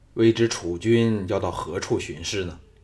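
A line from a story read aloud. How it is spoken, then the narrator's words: Deep, grave. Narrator (Chinese): 吕不韦 沉声说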